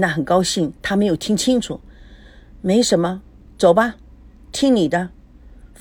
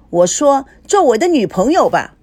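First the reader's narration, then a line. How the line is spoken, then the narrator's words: Shouting. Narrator (Chinese): 高佩芝喊着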